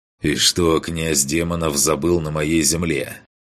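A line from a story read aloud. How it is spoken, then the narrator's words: Cold male voice. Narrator (Russian): холодно произнес он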